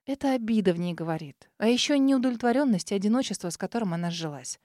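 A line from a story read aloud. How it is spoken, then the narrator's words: Whispered. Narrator (Russian): прошептала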